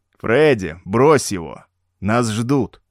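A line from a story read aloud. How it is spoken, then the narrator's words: Plain. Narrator (Russian): сказал второй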